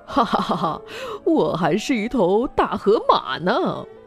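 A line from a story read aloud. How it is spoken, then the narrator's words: Father, laughing. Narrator (Chinese): 爸爸笑着说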